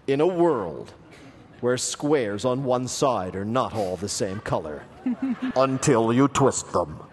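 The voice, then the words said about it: Dramatic movie trailer narrator voice. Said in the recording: “I'll try to do my best movie trailer voice.”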